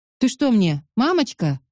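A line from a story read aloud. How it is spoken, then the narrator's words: Snapped. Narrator (Russian): огрызнулся Марк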